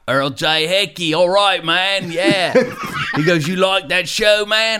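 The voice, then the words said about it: Deliberately bad Australian accent. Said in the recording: “I'm going to do a terrible Australian accent”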